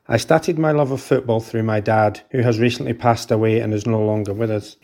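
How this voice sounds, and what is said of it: Non-local regional accent. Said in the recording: “as you'll be able to tell from my voice, I'm not originally from these parts”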